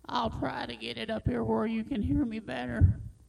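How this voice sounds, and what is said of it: Very old-sounding voice. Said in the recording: “I'm really very old. You can tell by my voice.”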